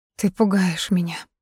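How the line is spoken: Quiet speech. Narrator (Russian): заговорила тихо

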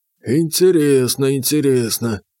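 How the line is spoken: Grumbling. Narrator (Russian): пробурчал Потапыч

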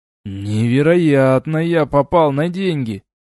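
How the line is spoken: Sigh. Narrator (Russian): вздохнул я

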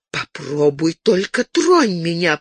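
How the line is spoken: Through gritted teeth. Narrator (Russian): процедила сквозь стиснутые зубы Розамунда

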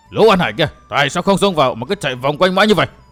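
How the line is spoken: Angry shout. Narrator (Vietnamese): Lão tức tối quát

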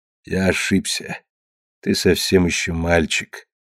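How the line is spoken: Calm objection. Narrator (Russian): спокойно возразил Агенор

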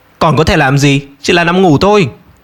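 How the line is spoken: Angry reply. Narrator (Vietnamese): Tất An tức giận trả lời

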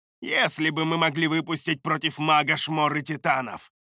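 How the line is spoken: Plain. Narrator (Russian): сказала архимагу Шадея

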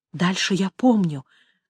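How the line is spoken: Whisper. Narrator (Russian): прошептала она

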